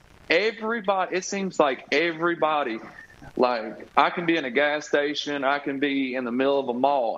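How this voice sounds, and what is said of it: Thick country accent. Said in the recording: “it's hard to hide a country accent, especially when it's as thick as mine”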